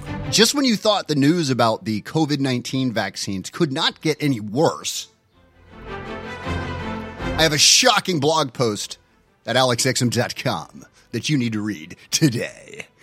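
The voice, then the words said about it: Exaggerated grave serious voice. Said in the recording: “Why am I talking like this? ... That's my serious voice.”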